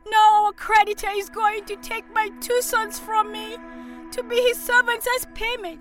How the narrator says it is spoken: she cried

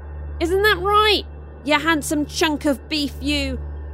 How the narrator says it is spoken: Zuri shouted towards Austin

